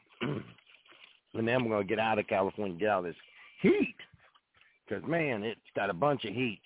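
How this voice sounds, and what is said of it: Rough, smoke-affected voice. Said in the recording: “Sorry about my voice. ... I've been breathing smoke for about over a week now.”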